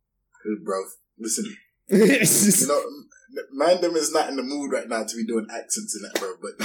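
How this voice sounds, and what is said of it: Put-on roadman London street accent. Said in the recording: “Do I do my roadman accent now? ... Yeah, do your roadman accent.”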